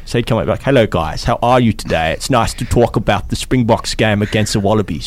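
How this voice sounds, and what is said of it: Exaggerated put-on South African accent. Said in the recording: “has a South African accent ... I reckon he's put a bit of mayo on that accent”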